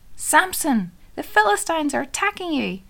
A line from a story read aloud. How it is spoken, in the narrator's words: Again she called out to him